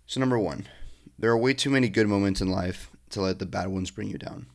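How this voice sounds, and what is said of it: Raspy, hoarse sick voice. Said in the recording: “I sound a little raspy ... I've actually been sick for a week now”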